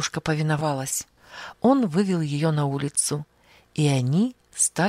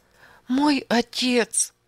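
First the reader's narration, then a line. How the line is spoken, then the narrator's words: Sobbing. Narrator (Russian): всхлипывала она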